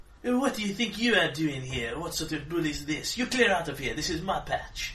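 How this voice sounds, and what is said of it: Put-on French accent. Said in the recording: “it is my French accent”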